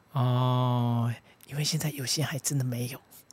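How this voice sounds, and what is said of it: Speaking quietly, soft voice. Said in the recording (Chinese): “你干嘛讲那么小声？”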